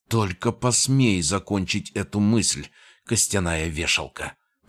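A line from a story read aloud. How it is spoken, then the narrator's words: Flustered, furious hiss. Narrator (Russian): прошипела она, судорожно натягивая на себя остатки балахона и пытаясь прикрыться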